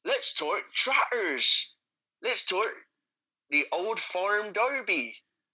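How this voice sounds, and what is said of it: Put-on West Country farmer accent. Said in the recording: “Although not actually in Somerset, I am aware. That's just my best farmer accent.”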